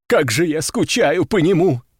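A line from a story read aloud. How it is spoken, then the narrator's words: Sobbing. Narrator (Russian): всхлипнул кто-то из них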